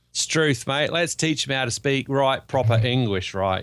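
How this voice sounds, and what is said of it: Put-on Ocker Australian accent. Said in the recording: “like a bit of Ocker ... I've figured out how to do the accent. Ain't I good?”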